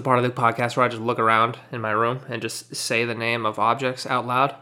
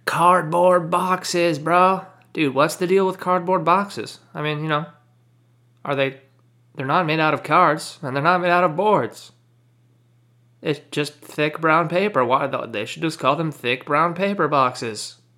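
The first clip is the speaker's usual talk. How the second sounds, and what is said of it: Imitates another person's voice. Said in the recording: “That was my Jerry Seinfeld impression.”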